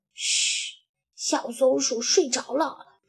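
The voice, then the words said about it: Quiet hushed voice. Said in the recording (Chinese): “瑞奇小声说”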